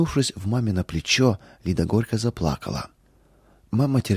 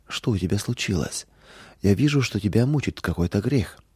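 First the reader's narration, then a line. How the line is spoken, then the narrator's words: Gentle motherly question. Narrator (Russian): мама мягко спросила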